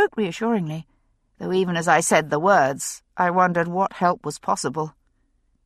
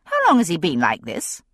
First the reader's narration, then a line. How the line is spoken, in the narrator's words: I asked sharply